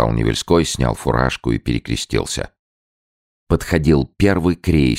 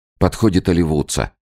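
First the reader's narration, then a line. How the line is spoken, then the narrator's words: Joyful address. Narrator (Russian): радостно обратился Невельской к жене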